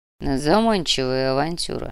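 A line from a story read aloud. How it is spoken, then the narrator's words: Grumbling. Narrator (Russian): проворчал барон Мечислав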